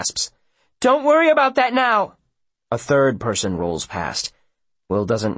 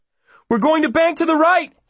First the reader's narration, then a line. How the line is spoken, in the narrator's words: he gasps in alarm